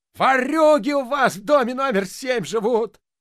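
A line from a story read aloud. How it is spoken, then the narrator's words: Yelling caretaker. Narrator (Russian): вопил дворник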